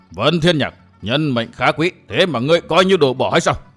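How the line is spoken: Roaring. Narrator (Vietnamese): Hàng Ma Tăng gầm lên

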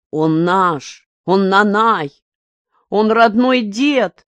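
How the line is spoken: Tearful shout. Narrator (Russian): выкрикнул Миша, чувствуя, что вот-вот заплачет

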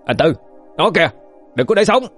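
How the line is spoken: Loud shout. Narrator (Vietnamese): Trần Lục cho quát lớn

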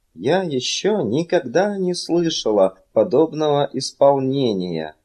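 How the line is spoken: Plain. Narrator (Russian): сказала она

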